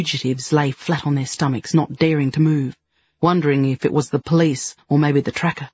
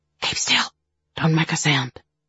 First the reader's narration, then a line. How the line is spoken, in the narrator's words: whispering